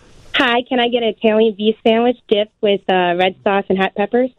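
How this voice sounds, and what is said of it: Convincing put-on regional accent. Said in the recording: “it's hard to argue with how great this accent is”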